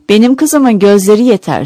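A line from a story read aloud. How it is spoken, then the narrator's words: Loud, harsh, angry grandmother. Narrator (Turkish): anneannem çok sinirlenir, yüksek sesle ve sertçe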